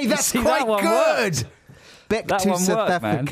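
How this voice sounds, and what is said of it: Usual voice. Nothing is said of it.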